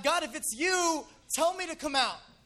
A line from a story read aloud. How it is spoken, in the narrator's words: Peter was on the boat, he yelled out